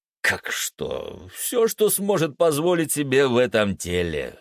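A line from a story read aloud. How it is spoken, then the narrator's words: Laughing. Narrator (Russian): сквозь смех ответил Нео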